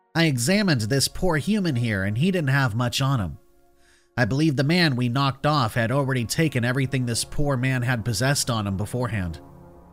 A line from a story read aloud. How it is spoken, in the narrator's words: Waddell said sadly